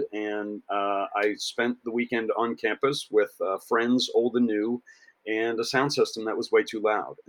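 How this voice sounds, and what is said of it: Hoarse, worn-out voice. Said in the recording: “my voice sounds a little trashed”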